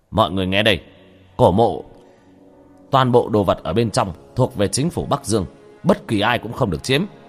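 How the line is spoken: Loud announcement. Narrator (Vietnamese): Lê Sư Trưởng lớn tiếng

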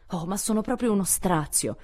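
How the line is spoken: Exclaiming. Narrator (Italian): esclamò

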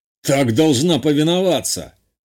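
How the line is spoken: Growled. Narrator (Russian): рыкнул тот

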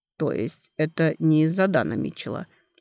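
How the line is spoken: Calm acceptance. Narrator (Russian): спокойно принял ее ответ Дан Реган

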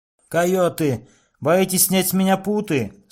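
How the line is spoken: Shouting again. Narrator (Russian): снова крикнул Тачунка Витка

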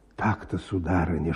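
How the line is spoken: Whispering. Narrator (Russian): шептал он

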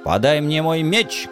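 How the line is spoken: Menacing yell. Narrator (Russian): грозно завопил я

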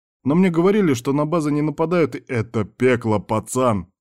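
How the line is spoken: Barked. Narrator (Russian): рявкнул на него Дональд

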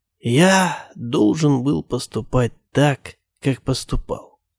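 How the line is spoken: Dying man's whisper. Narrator (Russian): шепнул он мне на смертном одре

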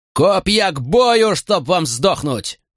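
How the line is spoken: Roared. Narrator (Russian): взревел Катон

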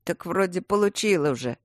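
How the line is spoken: Uncertain. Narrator (Russian): неуверенно отвечал

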